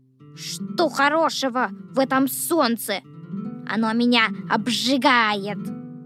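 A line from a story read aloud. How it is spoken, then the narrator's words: Earthworm grumbling. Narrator (Russian): Ворчал дождевой червяк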